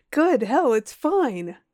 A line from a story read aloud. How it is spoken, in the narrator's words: cried